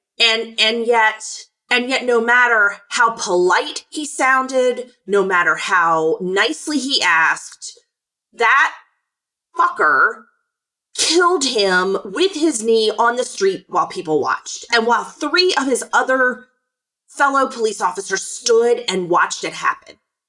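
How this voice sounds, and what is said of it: Angry, incensed tone. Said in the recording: “I'm incensed. I know you can hear that in my voice ... so mad I could spit nails”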